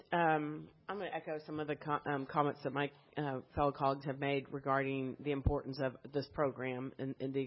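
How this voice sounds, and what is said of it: Weak voice with a cold. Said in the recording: “I've got a cold. ... My voice isn't very strong.”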